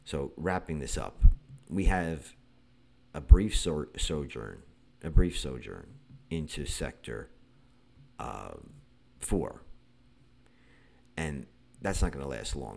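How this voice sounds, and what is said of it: Sick-sounding voice. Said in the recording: “as you can hear in my voice, I have been sick for the last day or so”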